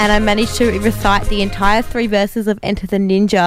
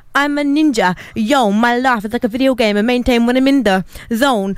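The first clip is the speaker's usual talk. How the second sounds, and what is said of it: Rapping in a put-on Afrikaans accent. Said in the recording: “with a with a um an Afrikaans accent.”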